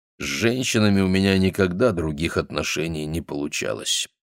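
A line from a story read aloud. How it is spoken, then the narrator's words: Grumbling. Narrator (Russian): проворчал он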